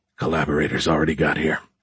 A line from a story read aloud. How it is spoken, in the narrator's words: he whispered